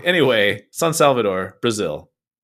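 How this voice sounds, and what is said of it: Put-on Latin American accent. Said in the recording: “I did my best with a Latin American accent.”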